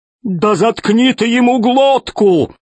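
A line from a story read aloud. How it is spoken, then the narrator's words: Yelling. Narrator (Russian): завопил весельчак У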